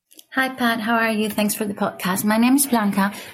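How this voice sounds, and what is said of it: Speaks with a noticeable accent. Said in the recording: “who has an awesome accent, by the way”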